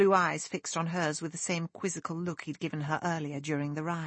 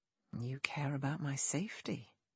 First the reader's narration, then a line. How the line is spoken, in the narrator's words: he whispered, so quietly the maid couldn't hear him